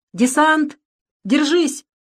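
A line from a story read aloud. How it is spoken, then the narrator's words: Tank commander shouting. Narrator (Russian): крикнул командир танка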